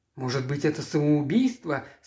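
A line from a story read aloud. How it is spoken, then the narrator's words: Frightened whisper. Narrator (Russian): спросил Эрик испуганным шепотом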